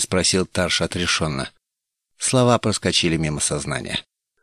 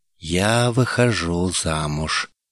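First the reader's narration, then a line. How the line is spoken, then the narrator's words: Slow, indifferent repetition. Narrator (Russian): медленно и безразлично повторила Каедай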